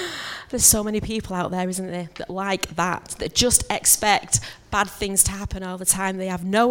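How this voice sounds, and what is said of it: Usual voice. Nothing is said of it.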